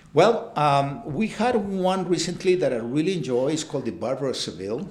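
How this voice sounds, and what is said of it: Noticeable foreign accent in English. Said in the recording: “I do know that I have a funny accent still ... You've never developed that Kansas accent”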